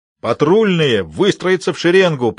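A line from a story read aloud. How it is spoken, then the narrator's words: Roaring command. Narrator (Russian): проревел Моррисон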